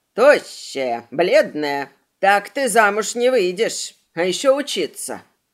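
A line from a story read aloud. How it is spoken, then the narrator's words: Grumbling. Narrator (Russian): Ее ворчание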